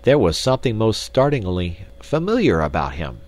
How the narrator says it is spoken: exclaimed Mr

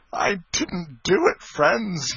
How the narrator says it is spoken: sobbed

